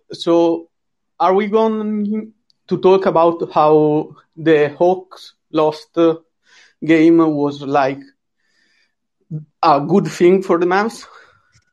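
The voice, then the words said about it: European accent. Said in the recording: “since I'm a European fan, you have to bear with my accent.”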